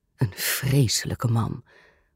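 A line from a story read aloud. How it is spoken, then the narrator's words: Muttered with open aversion. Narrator (Dutch): mompelde gravin Voronskaya, niet in staat haar aversie tegen de onbeschaamde Amerikaanse filmster te verhullen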